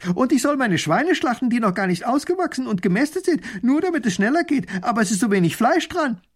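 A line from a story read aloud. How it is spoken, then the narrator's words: Calling out. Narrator (German): Ein anderer ruft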